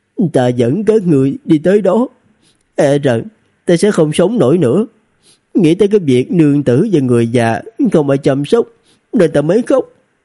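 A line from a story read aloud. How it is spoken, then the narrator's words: Choked, tearful voice. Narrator (Vietnamese): Loan Địch Thanh nghẹn ngào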